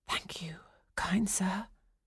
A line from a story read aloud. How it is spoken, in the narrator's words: Chloe whispered